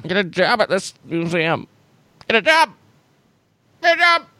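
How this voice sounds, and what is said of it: Sarcastic George Lucas impression, rising voice. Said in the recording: “my George Lucas impression has gotten so bad ... I love how his voice goes up ... He's sarcastic. We see sarcastic George Lucas.”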